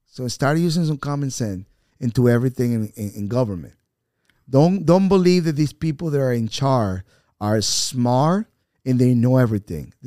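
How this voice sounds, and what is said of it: Strong foreign accent. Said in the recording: “I might have a very strong accent”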